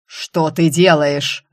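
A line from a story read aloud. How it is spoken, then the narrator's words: Ruler barking. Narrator (Russian): рявкнул повелитель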